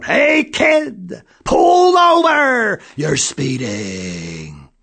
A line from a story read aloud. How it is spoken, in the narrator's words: The police officer yelled